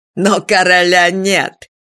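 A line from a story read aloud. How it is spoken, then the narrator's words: Cheeky laugh. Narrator (Russian): дерзко хохотнул Унатур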